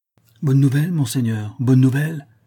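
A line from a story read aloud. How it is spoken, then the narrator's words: Exclaimed. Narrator (French): s'écria le squire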